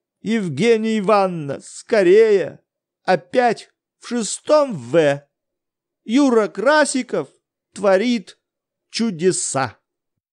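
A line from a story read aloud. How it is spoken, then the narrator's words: Loud, frightened exclamation. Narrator (Russian): чей-то испуганный голос громко возгласил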